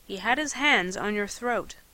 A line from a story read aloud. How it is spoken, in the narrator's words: he said quietly